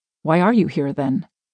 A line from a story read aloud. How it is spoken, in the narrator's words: asked